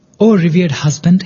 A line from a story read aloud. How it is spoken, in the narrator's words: his wife said